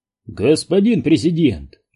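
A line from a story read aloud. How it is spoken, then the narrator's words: Exclaiming man. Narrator (Russian): воскликнул он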